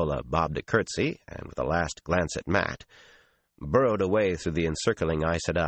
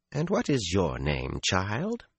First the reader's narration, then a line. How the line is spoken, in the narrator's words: Her tone was pleasant, but it expected an answer and no delay about it